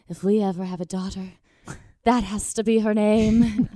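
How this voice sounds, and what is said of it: Imitates husband with Italian accent. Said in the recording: “really good impression ... I love how he's an accent ... we were in Italy, guys.”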